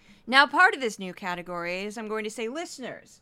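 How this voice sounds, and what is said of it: Usual voice. Nothing is said of it.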